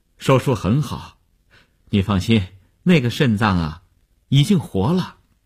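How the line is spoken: Relieved, smiling. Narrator (Chinese): 医生…放心地笑笑说

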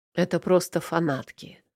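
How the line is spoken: Husky, unapologetic voice. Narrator (Russian): В хрипловатом голосе нет ни раскаяния, ни извинения

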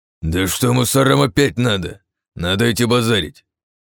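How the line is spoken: Growling. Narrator (Russian): зарычал БФГ, давая всем распоряжение в рацию

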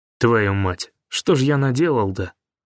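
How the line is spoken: Muttered. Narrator (Russian): буркнул Гуляев

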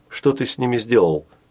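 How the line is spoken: Plain. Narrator (Russian): спросил Сашка

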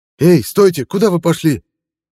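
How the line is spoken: Shouted. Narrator (Russian): Закричал Басин

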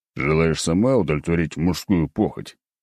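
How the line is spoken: Wry snort. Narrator (Russian): хмыкнул

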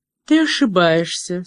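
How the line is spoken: Calm reply. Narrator (Russian): спокойно ответила

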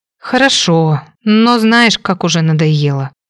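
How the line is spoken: Heavy sigh. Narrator (Russian): тяжело вздохнула

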